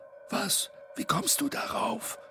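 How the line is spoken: Hiss from mouth corner. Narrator (German): zischte Bo aus dem Mundwinkel

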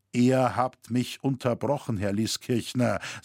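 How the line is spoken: Cold. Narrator (German): sagte Roritzer kalt

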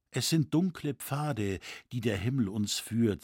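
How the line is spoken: Plain. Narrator (German): sagte sie dann

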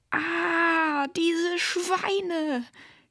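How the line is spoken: Outraged shriek. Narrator (German): kreischte, die soeben hereinkam und sah, was passiert war

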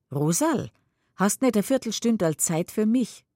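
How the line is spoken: Calls out. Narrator (German): ruft

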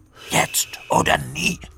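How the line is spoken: Hissed. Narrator (German): zischte Kunz Hinz zu

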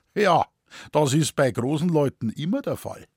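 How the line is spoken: Mocking reply. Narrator (German): Worauf er spöttisch erwiderte

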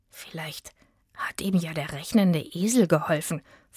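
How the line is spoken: Whisper. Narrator (German): flüsterte Itzig

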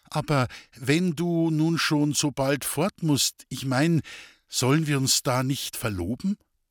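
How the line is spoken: Hesitant. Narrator (German): Zögernd begann

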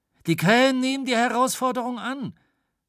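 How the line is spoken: Called out after a startled pause. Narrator (German): rief nach einer Schrecksekunde

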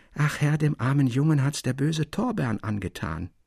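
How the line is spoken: Soft lisp, old man. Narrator (German): lispelte der alte Person Dalschön leise ins Ohr

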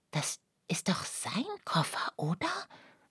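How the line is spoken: Whispering. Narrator (German): flüsterte Lucia

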